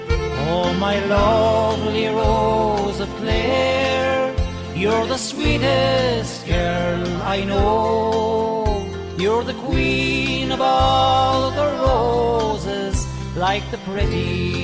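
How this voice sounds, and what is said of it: Gorgeous County Clare accent, singing. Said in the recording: “his lovely accent... listen to that gorgeous accent that he has”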